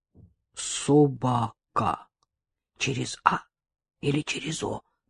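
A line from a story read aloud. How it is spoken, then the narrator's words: Muttering. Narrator (Russian): бормотал Сергей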